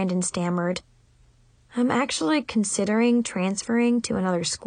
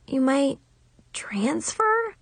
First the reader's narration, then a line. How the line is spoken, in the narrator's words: I croaked in shock